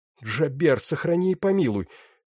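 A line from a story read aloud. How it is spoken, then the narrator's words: Breathless exclamation. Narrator (Russian): выдохнула Беллис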